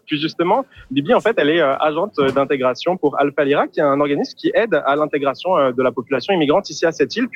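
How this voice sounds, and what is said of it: French-from-France accent. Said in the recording (French): “vous l'entendez à mon accent. Moi, je suis français.”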